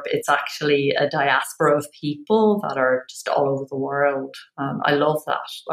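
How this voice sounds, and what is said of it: Irish accent. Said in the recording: “you're Irish, so just want to point out your accent to everyone”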